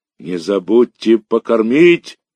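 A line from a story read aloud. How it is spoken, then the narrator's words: Shouting after someone. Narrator (Russian): кричал вслед нам Мишка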